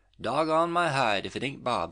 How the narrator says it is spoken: he exclaimed

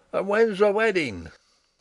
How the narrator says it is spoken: a rough fellow cried out

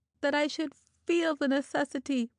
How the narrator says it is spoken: she half moaned, half cried

